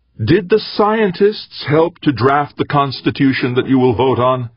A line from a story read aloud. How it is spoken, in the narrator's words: Raising his voice slightly, Eberly said